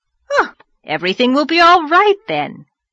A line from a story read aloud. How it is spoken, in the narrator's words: cried the rosy lady jubilantly